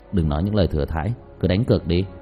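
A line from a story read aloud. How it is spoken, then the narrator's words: Cold sneering smile. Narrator (Vietnamese): Diệp Thiếu Dương cười nhạt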